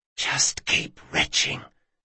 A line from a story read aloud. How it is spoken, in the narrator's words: he whispered